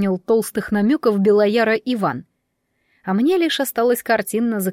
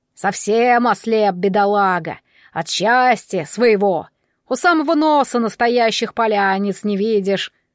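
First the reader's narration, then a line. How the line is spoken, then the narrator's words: Snorting. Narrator (Russian): фыркнул Белояр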